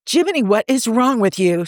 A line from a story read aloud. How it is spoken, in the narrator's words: Steve blurted